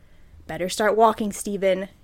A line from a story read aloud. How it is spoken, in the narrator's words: he muttered to himself